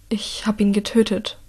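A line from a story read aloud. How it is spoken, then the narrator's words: Trembling voice. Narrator (German): sagt er mit zitternder Stimme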